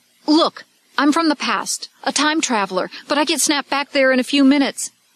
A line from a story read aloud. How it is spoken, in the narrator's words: He blurted out